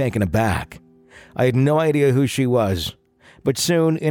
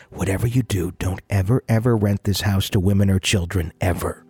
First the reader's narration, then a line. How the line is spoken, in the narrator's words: A woman whispered in my ear